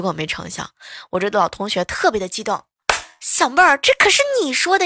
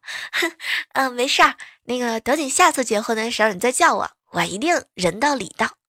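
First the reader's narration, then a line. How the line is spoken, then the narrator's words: Joking. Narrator (Chinese): 赶紧开玩笑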